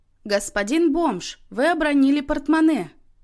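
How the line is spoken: Loud, booming shout. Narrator (Russian): зычно крикнула Тоня

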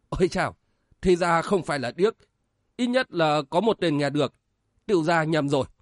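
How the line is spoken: Mock-fearful old monk. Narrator (Vietnamese): Lão hòa thượng giả bộ sợ hãi rồi nói

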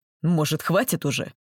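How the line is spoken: Very rude. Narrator (Russian): очень грубо у него это вышло

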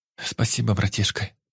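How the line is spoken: Hot, breathy whisper. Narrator (Russian): только и прошептала она, жарко дыша мне в ухо

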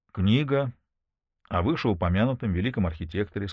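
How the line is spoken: Plain. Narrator (Russian): сказал он

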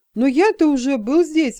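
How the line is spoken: Offended exclamation. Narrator (Russian): воскликнул Джексон, оскорбленный в лучших чувствах

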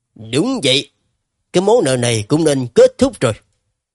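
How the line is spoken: Sudden cold voice. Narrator (Vietnamese): Lý Quá hồi lâu mới bỗng lạnh lùng nói

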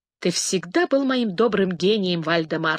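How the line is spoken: Plain. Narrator (Russian): сказал принц

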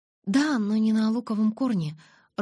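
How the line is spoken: Timid, smiling. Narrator (Russian): робко улыбнулась я

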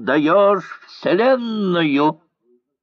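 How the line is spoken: Laughing shrill shout. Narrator (Russian): Он засмеялся и визгливо крикнул

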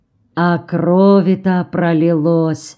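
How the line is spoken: Sighing. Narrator (Russian): вздохнул

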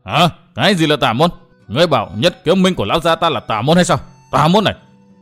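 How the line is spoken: Angry roar. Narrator (Vietnamese): Tên đi cuối cùng trong tốp nghe được câu nói đó của chàng bèn gầm lên

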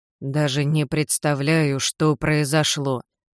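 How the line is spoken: Mechanical, repetitive grumble. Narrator (Russian): как заведенный пробурчал Билл

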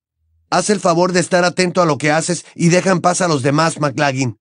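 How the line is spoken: Roaring. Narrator (Spanish): bramó Harry

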